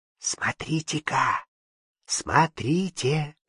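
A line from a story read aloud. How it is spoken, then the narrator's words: Whispered. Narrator (Russian): шепнула Власьевна девушкам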